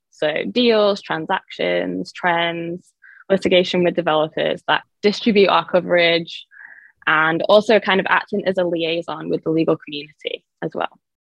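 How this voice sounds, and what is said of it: English accent. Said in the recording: “I am originally from England, by the way, so that's why I have this accent”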